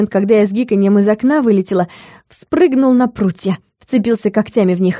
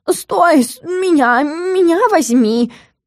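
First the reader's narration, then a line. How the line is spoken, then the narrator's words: Howling. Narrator (Russian): взвыл Стикс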